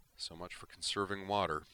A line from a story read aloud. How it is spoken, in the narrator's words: he said mournfully